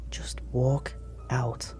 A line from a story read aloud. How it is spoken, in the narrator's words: she whispered